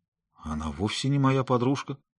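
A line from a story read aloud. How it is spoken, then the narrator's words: Confused. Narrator (Russian): сказал я растерянно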